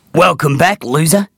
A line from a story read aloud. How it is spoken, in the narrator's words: grumbled Screamer over his shoulder